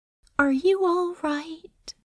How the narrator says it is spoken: Anathema asked softly

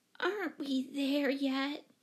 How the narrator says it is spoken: she whimpered

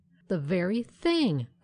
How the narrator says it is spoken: cried Helen

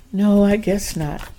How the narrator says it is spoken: Susan said with a sigh

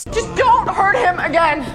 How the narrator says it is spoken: Lois shouts

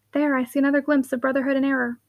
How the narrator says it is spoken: again Caroline whispered

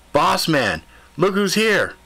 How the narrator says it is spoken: he bellowed out

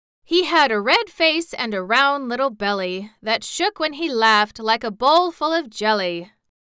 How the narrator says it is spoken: quoth the monarch in a pleasant voice

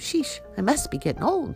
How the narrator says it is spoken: she chuckled

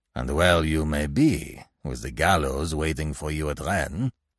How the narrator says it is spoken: growled the ferryman

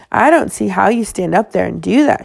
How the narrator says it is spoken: she said, her voice going crank

